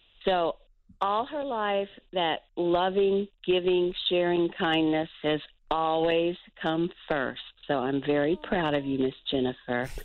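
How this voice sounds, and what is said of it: Raspy, hoarse voice. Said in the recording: “your raspy voice. You don't even sound like my mom.”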